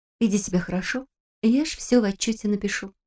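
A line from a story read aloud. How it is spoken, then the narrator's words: Whispering. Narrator (Russian): прошептала она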